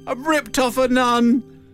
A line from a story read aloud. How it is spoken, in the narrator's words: in floods of tears and she shouted it again